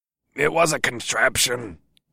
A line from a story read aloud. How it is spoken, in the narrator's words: Sagar grunted